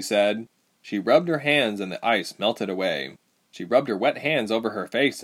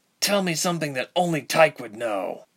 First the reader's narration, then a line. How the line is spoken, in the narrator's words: Ilse said through gritted teeth